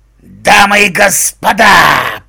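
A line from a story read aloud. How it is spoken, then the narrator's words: Habitual signature growl. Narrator (Russian): привычно зарычал Фрэнк свою фирменную фразу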